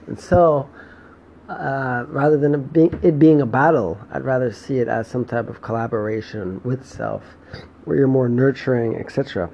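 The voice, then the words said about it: Hoarse, fading voice. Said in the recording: “my voice is going, it's just gone”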